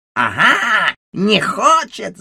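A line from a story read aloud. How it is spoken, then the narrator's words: Ticket woman shouting. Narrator (Russian): закричала билетерша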